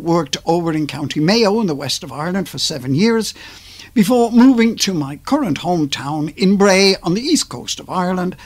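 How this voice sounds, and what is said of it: Slight Liverpool accent. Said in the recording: “hence the slight, dare I say it, slight Liverpool accent that I have”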